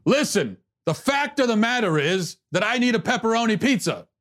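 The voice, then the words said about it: Screaming impression of another person. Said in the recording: “Everything they say, they're screaming ... Why are you screaming?”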